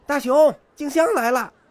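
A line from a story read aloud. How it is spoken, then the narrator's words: Calling out. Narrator (Chinese): 他冲屋里喊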